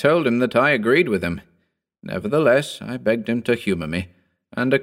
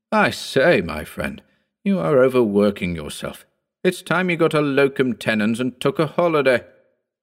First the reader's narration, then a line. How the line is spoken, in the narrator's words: as he burst into a hearty laugh, exclaimed